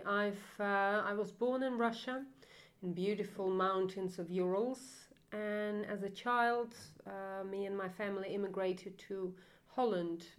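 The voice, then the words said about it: Foreign accent. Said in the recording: “some of our listeners are going to detect your accent there”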